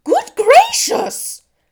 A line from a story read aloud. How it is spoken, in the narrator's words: cried Mrs